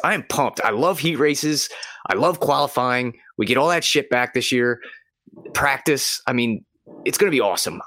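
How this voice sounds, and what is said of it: Excited, energized speech. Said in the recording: “I'm really excited. I don't know if you can hear it in my voice.”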